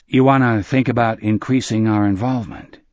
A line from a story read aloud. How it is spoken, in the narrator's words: Phil Sawyer said in a noncommittal voice